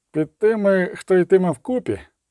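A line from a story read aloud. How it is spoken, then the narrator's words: Grumble. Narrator (Ukrainian): буркнув Бореас Мун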